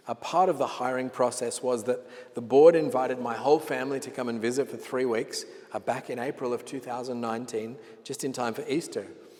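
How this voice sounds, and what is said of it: Australian accent. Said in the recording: “You might have noticed from my accent that I'm not originally Australian ... I was born in Sydney, Australia”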